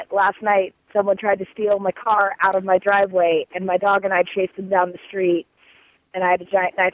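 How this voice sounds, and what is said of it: Hoarse, nearly lost voice. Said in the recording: “my voice sounds so crazy ... I lost my voice”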